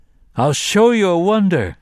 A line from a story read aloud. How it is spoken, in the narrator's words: he cried at them